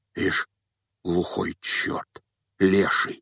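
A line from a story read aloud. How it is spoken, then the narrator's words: Group muttering under breath. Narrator (Russian): Пробормотали все вполголоса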